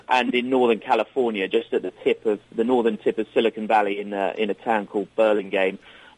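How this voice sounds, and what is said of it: English accent, from London. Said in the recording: “We're headquartered in London, England. ... That's where I'm from originally. You can probably hear that in my voice. ... I've still retained my English accent”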